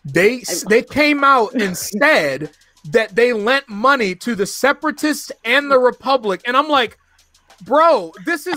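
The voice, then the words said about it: Yelling, loud excited speech. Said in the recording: “I'm sorry, I'm yelling.”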